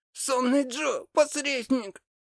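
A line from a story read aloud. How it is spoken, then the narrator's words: Breathless wheeze. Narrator (Russian): Прохрипел он, задыхаясь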